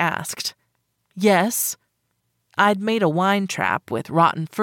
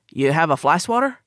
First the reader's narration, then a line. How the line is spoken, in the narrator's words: he asked